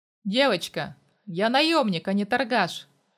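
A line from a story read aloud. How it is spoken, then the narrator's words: Wry grunt. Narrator (Russian): хмыкнул я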